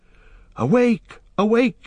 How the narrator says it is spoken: he cried

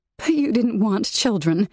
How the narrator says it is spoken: said, her voice thick with emotion

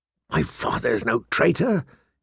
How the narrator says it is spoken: he said hoarsely

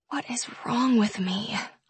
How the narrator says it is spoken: I mumble

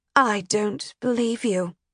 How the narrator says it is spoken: Alassa said flatly

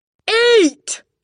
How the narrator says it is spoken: shouted

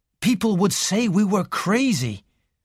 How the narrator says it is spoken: said Raymond bitterly

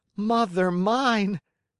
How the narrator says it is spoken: cried the Marionette, scared to death

